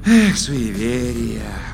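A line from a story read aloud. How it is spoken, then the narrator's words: Contented sigh. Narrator (Russian): Умиротворенно вздохнул Вур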